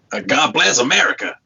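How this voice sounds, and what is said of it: Put-on American accent. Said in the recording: “does a great American accent”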